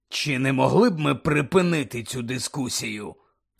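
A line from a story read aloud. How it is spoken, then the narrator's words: Growled. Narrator (Ukrainian): прогарчав Муді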